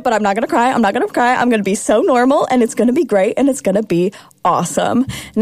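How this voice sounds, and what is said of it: Choked up, emotional voice. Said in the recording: “I'm getting choked up a little bit”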